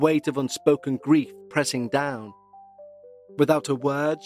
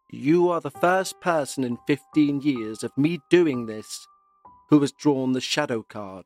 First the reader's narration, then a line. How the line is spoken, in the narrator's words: said